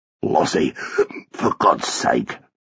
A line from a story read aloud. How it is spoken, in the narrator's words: Arthur Rubric muttered